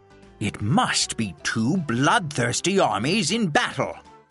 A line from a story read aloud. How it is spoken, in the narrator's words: exclaimed Don Quixote